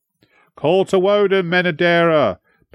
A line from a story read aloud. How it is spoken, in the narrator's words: bellowed the prince